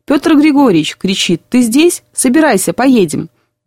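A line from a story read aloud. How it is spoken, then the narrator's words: Shout. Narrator (Russian): да как закричит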